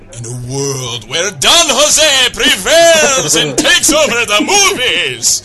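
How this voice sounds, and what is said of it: Movie trailer announcer voice. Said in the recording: “like Mr. Movie Voice”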